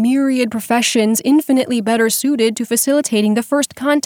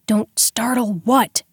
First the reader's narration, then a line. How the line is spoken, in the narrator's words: Dex hissed back